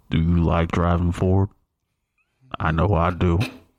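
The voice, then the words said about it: Imitates another person's voice. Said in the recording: “That was my Sam Elliott impersonation.”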